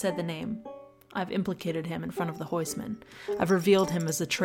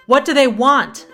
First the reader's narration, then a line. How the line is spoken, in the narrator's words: shout